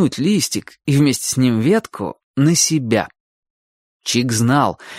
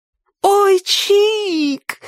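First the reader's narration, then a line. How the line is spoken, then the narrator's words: Delighted shriek. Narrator (Russian): восторженно завопила Сонька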